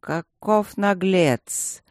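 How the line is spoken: Low, almost surprised. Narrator (Russian): почти удивленно проговорил он, вполголоса

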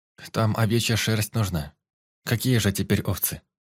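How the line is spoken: Sighing. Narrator (Russian): вздохнула Соня

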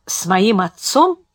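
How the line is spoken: Thoughtful repetition. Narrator (Russian): задумчиво повторил тот

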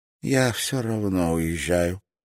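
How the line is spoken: Tired. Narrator (Russian): устало произнесла она

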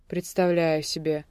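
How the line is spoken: Short chuckle. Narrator (Russian): хохотнул

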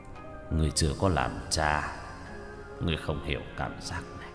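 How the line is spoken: Sighing. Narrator (Vietnamese): Diệp Binh thở dài

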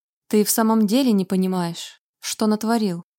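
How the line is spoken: Pointedly calm question. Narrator (Russian): подчеркнуто спокойно спросил Вальтер

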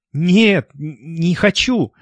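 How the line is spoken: Trembling voice. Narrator (Russian): дрожащим голосом ответила

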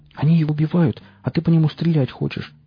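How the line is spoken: Exclamation. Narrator (Russian): воскликнула Настя

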